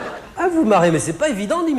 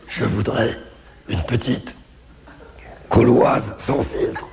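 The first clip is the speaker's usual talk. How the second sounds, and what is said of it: Raspy, damaged-throat voice. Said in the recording (French): “imiter mon père qui a un cancer de la gorge ... imiter l'accent cancéreux”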